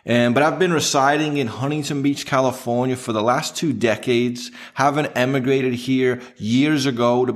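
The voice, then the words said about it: English accent. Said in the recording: “this is not an accent. I'm actually from England, so I am speaking not original, but some kind of English”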